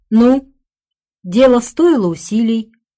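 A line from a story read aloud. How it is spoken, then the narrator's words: Sleepy question. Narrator (Russian): спросил он сонно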